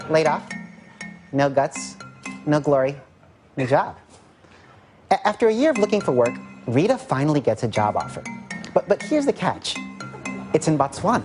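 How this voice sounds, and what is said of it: Ira Glass impression. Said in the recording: “did an impression of Ira Glass from This American Life on Weekend Update”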